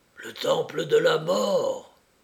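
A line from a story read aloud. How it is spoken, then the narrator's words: Murmured. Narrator (French): murmura Orellana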